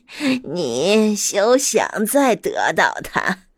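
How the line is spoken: Evil laughing witch. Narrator (Chinese): 女巫邪恶的笑了笑，说

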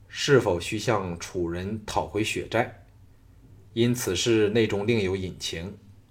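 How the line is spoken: Cold, calm. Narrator (Chinese): 小盘冷冷地审视众人的反应，淡然说

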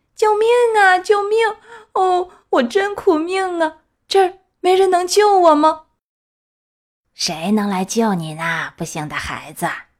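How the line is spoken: Wailing, tearful crying. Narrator (Chinese): 皮诺乔开始大哭大叫，流着泪说

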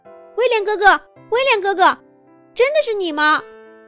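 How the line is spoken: Excited shouting. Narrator (Chinese): 马克兴奋地，高声喊着

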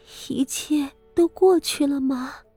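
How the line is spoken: Tearful murmur. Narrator (Chinese): 这么哭了半晌，傅柔仪抬起一张泪痕遍布的面孔，喃喃道

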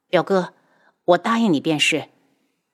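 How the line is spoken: Flat, indifferent. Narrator (Chinese): 他淡淡的道

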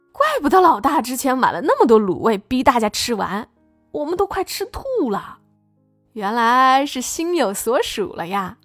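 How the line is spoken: Teasing, giggling. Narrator (Chinese): 有员工笑嘻嘻的起哄

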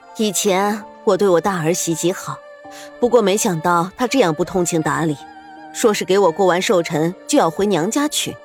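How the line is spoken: Sighing. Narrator (Chinese): 徐夫人叹息，对身边的苏月心说道

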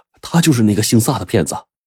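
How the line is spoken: Hurried, startled. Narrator (Chinese): 急忙对何掌柜说

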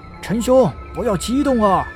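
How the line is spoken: Group shouting loudly. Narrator (Chinese): 他们大声喊着

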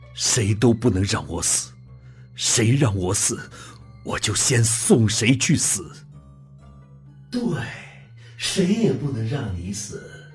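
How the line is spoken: Through gritted teeth. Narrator (Chinese): 林叶 咬牙切齿地说

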